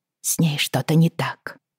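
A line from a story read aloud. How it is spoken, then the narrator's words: Muttered. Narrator (Russian): пробормотала мне Тереза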